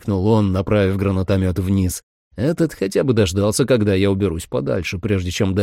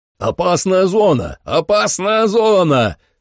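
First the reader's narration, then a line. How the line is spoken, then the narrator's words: Yelling. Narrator (Russian): заорал Трой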